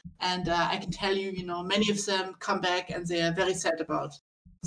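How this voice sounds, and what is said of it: Put-on German accent. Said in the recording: “they were German, so it's a German accent.”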